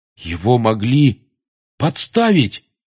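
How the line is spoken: Exclamation. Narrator (Russian): воскликнул Рон

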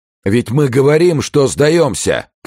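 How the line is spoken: Shouting. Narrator (Russian): крикнул Ив

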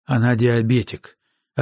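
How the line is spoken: Broken voice. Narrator (Russian): ответил я надломленным голосом

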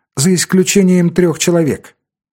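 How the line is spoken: Calm. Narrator (Russian): сказал Дэвид спокойно

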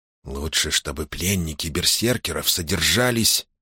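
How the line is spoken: Heated whisper, abruptly cut off. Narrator (Russian): жарко зашептал Ром, но тут же прикусил язык

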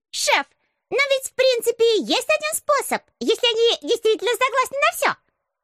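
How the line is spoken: Squeaky voice from behind. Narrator (Russian): пропищал кто-то у меня за спиной

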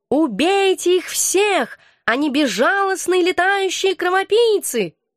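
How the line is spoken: Cat yowling. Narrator (Russian): кот завопил

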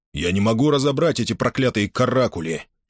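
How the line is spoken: Irritated, raised voice. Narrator (Russian): продолжил он, раздраженно повысив голос

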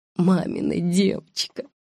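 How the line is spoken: Mumble. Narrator (Russian): пробормотала она

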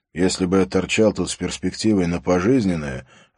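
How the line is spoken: Plain. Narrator (Russian): ответил Харри

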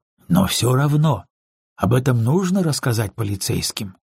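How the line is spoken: Gentle. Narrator (Russian): мягко произнес я

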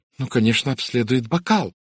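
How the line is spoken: Exclamation. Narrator (Russian): воскликнула мисс Сатклифф

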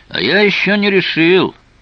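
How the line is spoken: Shouted reply. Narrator (Russian): прокричал в ответ Тео

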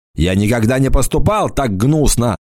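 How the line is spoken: Shouting. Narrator (Russian): закричал орк

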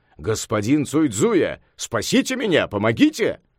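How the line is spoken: Flustered exclamation. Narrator (Russian): Император до того растерялся, что не знал, куда деваться, и воскликнул

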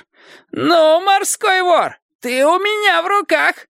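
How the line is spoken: Shouting. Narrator (Russian): кричал он

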